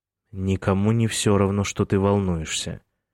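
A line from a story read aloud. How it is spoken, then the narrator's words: Gentle. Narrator (Russian): мягко сказал он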